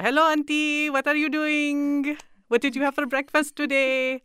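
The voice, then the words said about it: Exaggerated put-on Indian accent. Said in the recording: “making fun of the Indian accent, the quote unquote Indian accent ... I was basing mine on Apu as well ... it sounds like it's from the Emirates or ... like Saudi Arabia ... It's more Middle”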